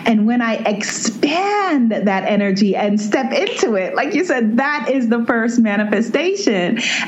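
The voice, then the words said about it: Excited, energetic speaking voice. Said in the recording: “you can hear the excitement in my voice”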